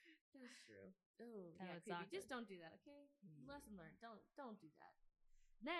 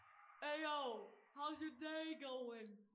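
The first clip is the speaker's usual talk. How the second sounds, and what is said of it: Sudden put-on accent. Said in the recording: “When did you get an accent?”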